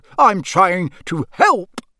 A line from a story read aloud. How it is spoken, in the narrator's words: Bellowing like a wounded hippo, Uncle Vernon